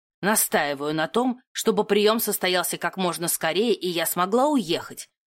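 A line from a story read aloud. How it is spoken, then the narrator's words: Grim, uncompromising. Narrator (Russian): заявила она бескомпромиссно мрачным тоном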